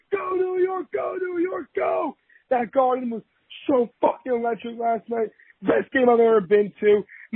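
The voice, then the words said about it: Hoarse, worn-out voice. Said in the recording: “my voice is gone ... My voice is shot ... My voice is still gone”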